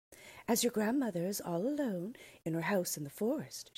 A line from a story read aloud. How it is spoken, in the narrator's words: she said